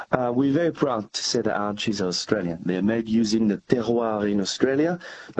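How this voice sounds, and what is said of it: French accent. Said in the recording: “we can tell by your accent. You've got French origins”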